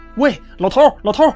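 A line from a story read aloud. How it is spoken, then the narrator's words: Anxious shout. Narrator (Chinese): 一位太太焦急地冲他喊道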